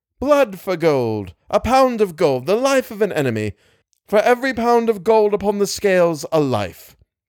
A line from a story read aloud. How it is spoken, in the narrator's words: he cried again